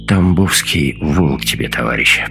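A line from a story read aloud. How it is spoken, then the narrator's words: Hoarse rasp. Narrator (Russian): прохрипел Тарас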